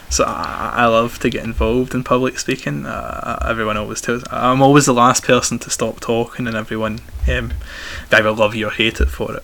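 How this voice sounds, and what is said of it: Strong Glaswegian accent. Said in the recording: “very strong Glaswegian accent”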